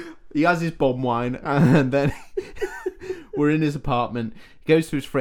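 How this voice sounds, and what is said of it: Usual voice. Nothing is said of it.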